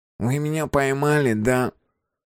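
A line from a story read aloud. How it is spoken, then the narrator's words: Thin nasal voice. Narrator (Russian): Гнусаво и тоненько произнес он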